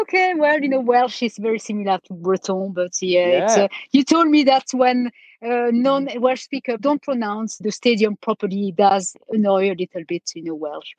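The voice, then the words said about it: French accent. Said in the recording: “Very good with a French accent.”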